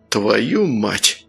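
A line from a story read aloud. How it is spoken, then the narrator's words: Breathed out. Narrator (Russian): выдохнул Сергей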